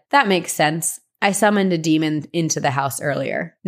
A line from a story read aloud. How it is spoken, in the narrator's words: laughed and said